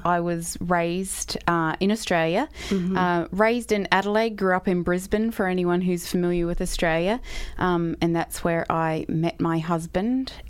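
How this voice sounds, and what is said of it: Accent from being raised in Australia. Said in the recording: “I love your accent. ... raised in Australia”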